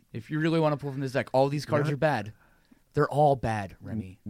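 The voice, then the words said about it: Stern parental dad voice. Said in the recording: “I started using my dad voice.”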